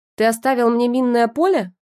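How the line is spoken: Shout in borrowed voice. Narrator (Russian): крикнула я, забыв, что мой голос теперь Женя

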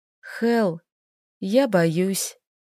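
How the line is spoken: Barely audible confession. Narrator (Russian): призналась едва слышно

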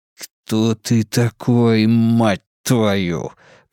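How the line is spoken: Hissed. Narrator (Russian): прошипел он

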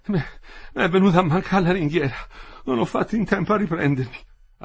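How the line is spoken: Breathless speech. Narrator (Italian): Ansimava, diceva

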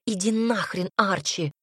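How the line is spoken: Growled. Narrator (Russian): рыкнула Ярослава

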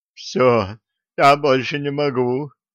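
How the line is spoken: Moaning. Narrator (Russian): простонал он

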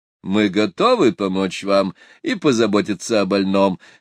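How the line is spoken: Mocking, smiling. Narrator (Russian): сказал студент, тоже насмешливо улыбаясь

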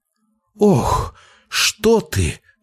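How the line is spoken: Sudden cry. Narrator (Russian): вскрикнула она, почувствовав его внутри себя

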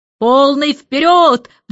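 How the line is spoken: Roaring. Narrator (Russian): взревел адмирал Бум

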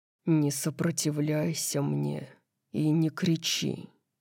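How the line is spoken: Strained, hoarse voice. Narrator (Russian): сказал хриплым от принуждения голосом

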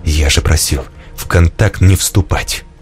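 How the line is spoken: Quiet, very serious. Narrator (Russian): Артем тихо, но очень серьезно произнес

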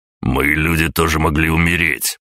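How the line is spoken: Growled. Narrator (Russian): прорычал Аврелий

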